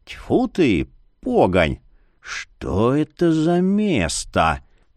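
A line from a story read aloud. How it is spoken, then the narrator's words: Hoarse rasp. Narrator (Russian): прохрипел Марий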